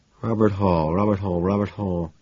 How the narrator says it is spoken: I muttered to myself, trying to remember

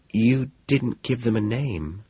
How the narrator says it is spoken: she says softly

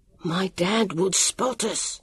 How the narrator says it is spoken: Sam whispered

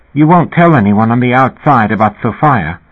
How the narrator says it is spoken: Linda had said anxiously

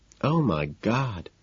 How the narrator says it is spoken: she kept moaning, blood bubbling out of her nose

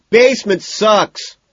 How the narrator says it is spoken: McDermott shouts

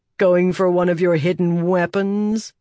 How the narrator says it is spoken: He asked with a sneer

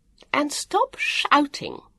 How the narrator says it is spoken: the woman added sharply

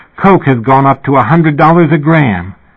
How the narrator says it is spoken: suddenly sitting bolt upright in the middle of the night and exclaiming

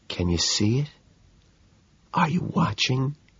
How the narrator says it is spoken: I whisper

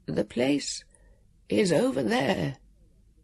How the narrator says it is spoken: the keeper said in his gentle, fluting voice

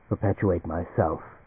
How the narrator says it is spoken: the creature said quietly

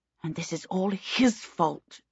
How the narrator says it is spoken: she snarled to herself

